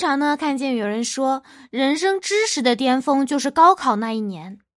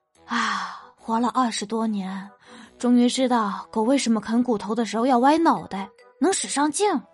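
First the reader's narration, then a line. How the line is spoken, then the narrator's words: Earnest sigh. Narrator (Chinese): 葛一蛋呢语重心长的感叹道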